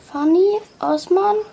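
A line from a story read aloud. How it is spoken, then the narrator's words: Call. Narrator (German): rief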